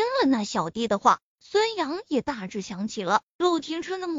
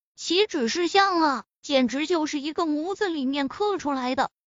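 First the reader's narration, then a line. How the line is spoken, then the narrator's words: Marveling exclamation. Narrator (Chinese): 那小弟忍不住感叹了一句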